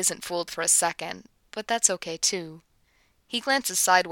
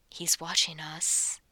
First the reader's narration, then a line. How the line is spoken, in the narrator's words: he warns softly, but he's smiling